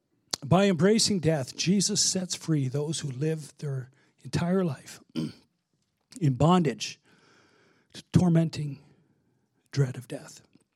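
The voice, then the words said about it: Hoarse, worn-out voice. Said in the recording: “this is my third service today, so I'm losing my voice.”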